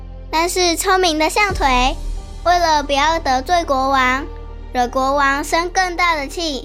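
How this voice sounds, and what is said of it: Usual voice. Nothing is said of it.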